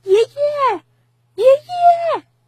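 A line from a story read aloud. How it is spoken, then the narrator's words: Faint, swallowed call. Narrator (Chinese): 他的声音似乎被森林吞没了，连回音都没有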